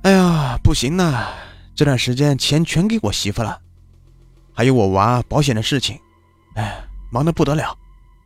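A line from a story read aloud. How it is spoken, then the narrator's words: Sighing. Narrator (Chinese): 小张那边叹了口气说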